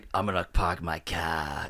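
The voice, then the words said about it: Jason Statham's English-Boston blended accent. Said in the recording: “That's the English Boston accent. ... Jason Statham has, apparently from what I heard, a Boston English accent ... he, like, blended the accents together”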